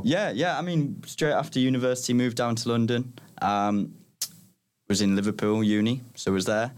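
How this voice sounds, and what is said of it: Northern English Middlesbrough accent. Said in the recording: “you've got um, a different accent. We're not talking to a London person today”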